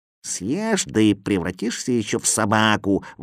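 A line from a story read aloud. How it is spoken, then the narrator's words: Grumbling. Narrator (Russian): ворчал Кузя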